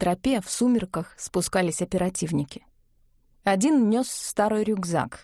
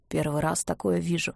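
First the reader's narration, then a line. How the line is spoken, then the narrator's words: In an undertone. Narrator (Russian): вполголоса сказал один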